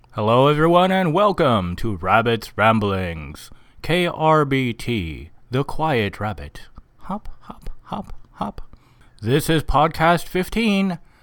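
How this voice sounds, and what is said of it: Put-on radio announcer voice. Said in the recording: “I'm speaking to you with radio voice.”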